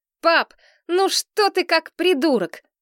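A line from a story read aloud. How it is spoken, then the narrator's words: Shouting. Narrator (Russian): закричала я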